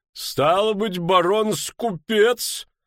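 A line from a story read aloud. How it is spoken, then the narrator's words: Loud guffaw. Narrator (Russian): захохотал Хувенагель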